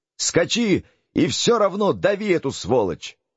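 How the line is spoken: Intrigued shout. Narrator (Russian): Валамбрес, которого эта странная сцена очень заинтересовала, закричал

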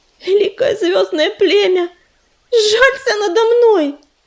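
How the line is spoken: Pleading. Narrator (Russian): взмолилась она

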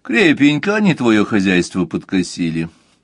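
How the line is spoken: Plain. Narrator (Russian): сказал Мазур

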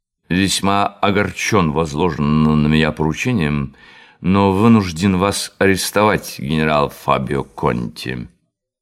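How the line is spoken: Drunken voice. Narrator (Russian): Жандармский вахмистр сказал пьяным голосом

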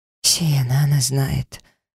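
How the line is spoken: Breathless, overwhelmed with emotion. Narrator (Russian): выдохнула я, захлебываясь от эмоций

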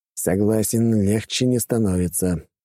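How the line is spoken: Sighing. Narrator (Russian): вздохнул Вениамин

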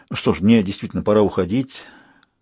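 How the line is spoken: Muttering. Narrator (Russian): пробормотал он

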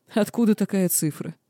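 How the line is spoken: Question after laughing. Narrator (Russian): отсмеявшись, вопросил кесарь

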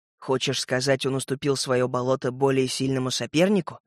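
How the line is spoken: Whispered question. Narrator (Russian): шепотом переспросил я

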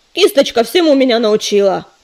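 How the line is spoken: Snapping back. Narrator (Russian): огрызнулся долголап

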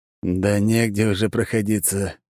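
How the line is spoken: Sighing. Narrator (Russian): вздохнул Белмор

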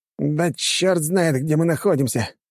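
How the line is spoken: Hoarse shout. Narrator (Russian): хрипло выкрикнул боцман

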